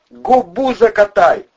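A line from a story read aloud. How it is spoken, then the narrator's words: Full-lunged yell. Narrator (Russian): во все легкие завопил бандура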